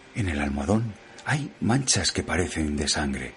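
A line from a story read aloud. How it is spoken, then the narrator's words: Low voice. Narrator (Spanish): llamó a Jordán en voz baja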